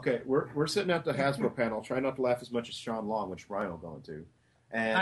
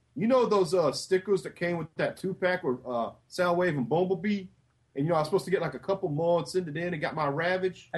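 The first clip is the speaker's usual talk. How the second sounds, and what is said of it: Heavy Bronx/Jersey accent. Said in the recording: “you hear the voice. And it's a very heavy Bronx Jersey type accent.”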